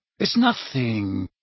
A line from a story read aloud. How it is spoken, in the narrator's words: he said reassuringly, lowering his voice